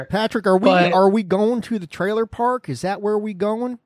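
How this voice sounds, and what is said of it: Attempted Southern accent. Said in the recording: “Nice attempt at an accent there. I don't know what was happening. ... I grew up in the South, man.”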